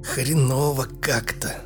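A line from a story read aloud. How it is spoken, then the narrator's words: Hoarse wheeze. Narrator (Russian): прохрипел Бармаглот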